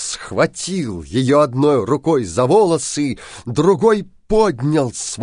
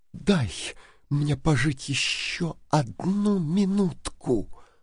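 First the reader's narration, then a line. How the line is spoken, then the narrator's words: Whispered. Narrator (Russian): прошептала она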